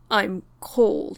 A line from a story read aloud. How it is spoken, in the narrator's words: he mumbled